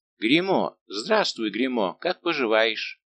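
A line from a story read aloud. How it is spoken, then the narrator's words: Exclaiming. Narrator (Russian): герцог воскликнул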